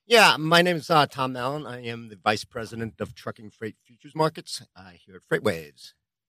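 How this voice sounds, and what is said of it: New York accent. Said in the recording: “New York, I could tell by the accents.”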